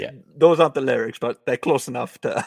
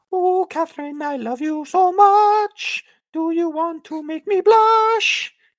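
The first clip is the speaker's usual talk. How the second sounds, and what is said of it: Silly exaggerated singing voice. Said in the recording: “in this stupid voice”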